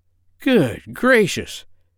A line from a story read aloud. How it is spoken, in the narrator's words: cried the doctor